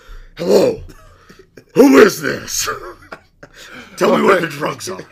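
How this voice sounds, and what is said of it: Gruff Batman character voice. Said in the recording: “I put on my Batman voice.”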